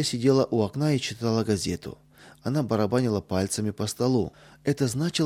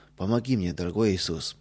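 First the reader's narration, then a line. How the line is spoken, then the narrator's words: Whisper. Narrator (Russian): прошептал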